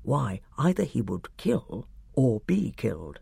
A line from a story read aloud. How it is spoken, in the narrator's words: whispered Clozel